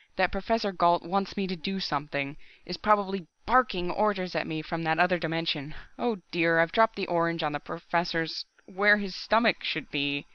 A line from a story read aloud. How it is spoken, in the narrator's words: he quavered